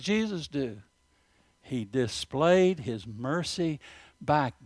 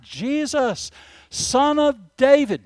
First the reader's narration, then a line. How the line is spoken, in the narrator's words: Bartimaeus, the blind man, he cried out